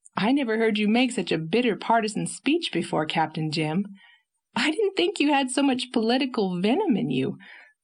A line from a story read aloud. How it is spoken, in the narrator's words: laughed Anne, who was not much excited over the tidings